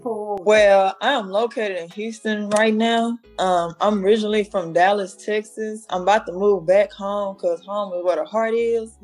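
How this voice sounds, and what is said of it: Southern US accent. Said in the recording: “I love that Southern accent that you got there”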